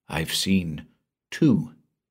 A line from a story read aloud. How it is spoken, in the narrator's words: said quietly